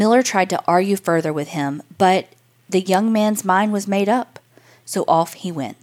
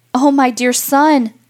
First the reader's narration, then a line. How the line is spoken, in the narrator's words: cried his mother